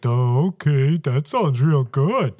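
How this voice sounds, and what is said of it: Imitates another person's voice. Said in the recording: “my best Joe Biden impression”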